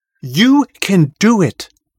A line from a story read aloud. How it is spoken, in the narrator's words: Murnith says